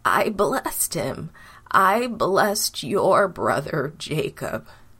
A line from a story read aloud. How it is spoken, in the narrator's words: sadly said